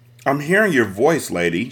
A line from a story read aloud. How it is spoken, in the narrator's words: she said